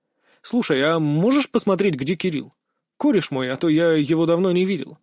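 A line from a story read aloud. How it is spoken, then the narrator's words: Eager joyful question. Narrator (Russian): радостно спросил я, ожидая новостей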